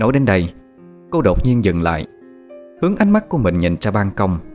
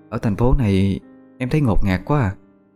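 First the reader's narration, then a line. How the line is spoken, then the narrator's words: Sad tone. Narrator (Vietnamese): Vẫn với giọng điệu buồn rầu, Hà Anh nói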